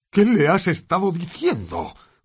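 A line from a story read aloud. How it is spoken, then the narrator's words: Growled. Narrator (Spanish): gruñó Bane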